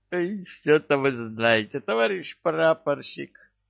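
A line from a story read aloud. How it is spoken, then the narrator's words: Laughing. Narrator (Russian): смеялся Кикимор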